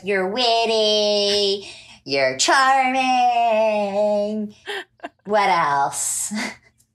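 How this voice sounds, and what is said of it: Imitates a TV character's voice. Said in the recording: “my Andy impression”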